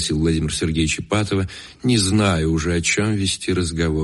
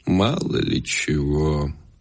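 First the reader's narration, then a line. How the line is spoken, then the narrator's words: Old man, sighing. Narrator (Russian): вздохнув, ответил старик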